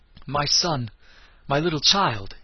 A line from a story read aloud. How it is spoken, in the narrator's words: he cried, in a choked, trembling voice